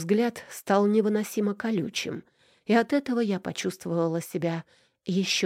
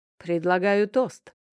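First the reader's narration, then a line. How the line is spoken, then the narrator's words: Loud deep voice. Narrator (Russian): громко пробасил Данил Никитич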